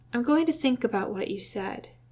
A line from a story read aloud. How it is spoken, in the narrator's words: Jim said quietly, mindful of the doctor's ears